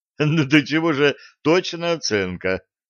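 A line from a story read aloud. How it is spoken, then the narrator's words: Sobbing through laughter. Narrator (Russian): прорыдал сквозь смех капитан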